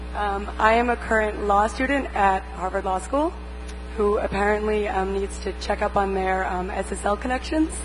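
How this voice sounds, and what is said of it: Hoarse, fading voice. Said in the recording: “I'm kind of losing my voice,”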